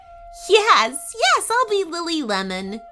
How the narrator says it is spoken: she giggled

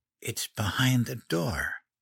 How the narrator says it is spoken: whispered

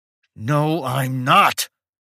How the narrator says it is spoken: screamed Mike

